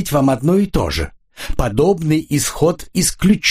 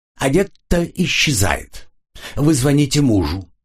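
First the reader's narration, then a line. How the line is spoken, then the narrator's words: Displeased tone. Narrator (Russian): недовольным тоном произнесла она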